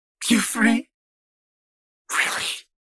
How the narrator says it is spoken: snarled

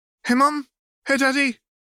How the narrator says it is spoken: Hermione squeaked with excitement

